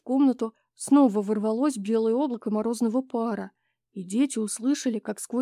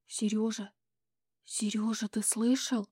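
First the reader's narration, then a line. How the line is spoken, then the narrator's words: Whisper. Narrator (Russian): сказала Таня шепотом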